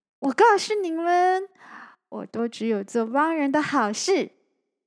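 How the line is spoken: Proud laughing. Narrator (Chinese): 小光 一副很骄傲的样子，笑着说

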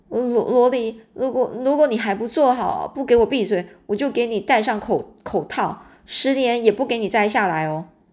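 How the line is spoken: Trembling voice. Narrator (Chinese): 我声音颤抖的说

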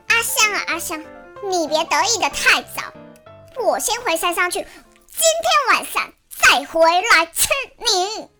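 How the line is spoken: Angry shout, tiger demon. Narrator (Chinese): 老虎精只好生气的对着天空大喊

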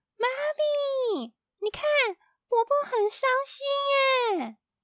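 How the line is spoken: Loud shout. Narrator (Chinese): 咪咪大喊

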